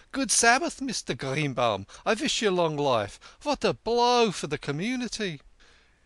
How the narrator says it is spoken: he cried

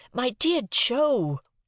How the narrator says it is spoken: I cried in desperation

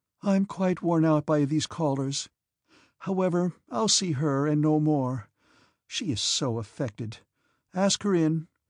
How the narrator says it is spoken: she said to the footman in a sad voice

